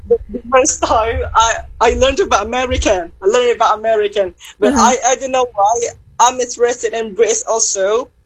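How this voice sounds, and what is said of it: British-sounding accent. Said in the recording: “you have that British accent, right? So how can you pick that British accent?”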